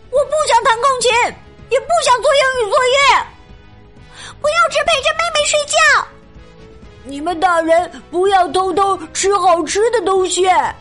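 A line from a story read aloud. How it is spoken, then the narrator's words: Loud complaining. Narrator (Chinese): 舒太郎、大田和花花的火球怪 大声抱怨着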